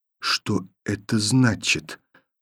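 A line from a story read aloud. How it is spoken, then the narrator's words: Quiet repetition. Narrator (Russian): повторила тихо Таня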